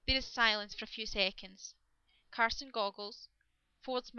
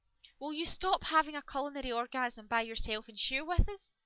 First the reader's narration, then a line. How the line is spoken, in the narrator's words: Rodney, patience personified, who finally blurts out